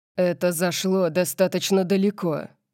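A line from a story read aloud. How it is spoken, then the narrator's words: Growl. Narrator (Russian): прорычал он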